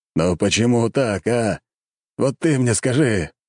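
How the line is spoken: Emperor wailing. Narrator (Russian): взвыл император

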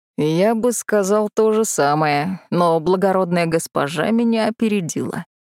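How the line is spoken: Short chuckle. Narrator (Russian): хохотнул Тиньмо

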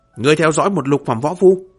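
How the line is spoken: Angry. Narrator (Vietnamese): Thống lĩnh cấm quân tức giận

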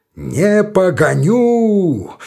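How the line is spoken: Roaring at full voice. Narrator (Russian): взревел паша изо всей силы своего голоса

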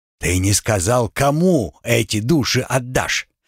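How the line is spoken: Giant's growl. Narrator (Russian): рыкнул гигант в черном

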